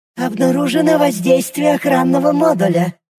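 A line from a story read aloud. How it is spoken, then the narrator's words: Strained creaky small voice. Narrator (Russian): проскрипела искорка таким голосом, будто ее саму плющит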